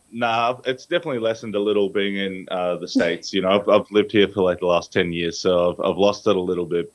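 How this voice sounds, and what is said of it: Australian accent. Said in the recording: “this Australian accent, you are from Australia ... has it lessened some now that you've been living in America”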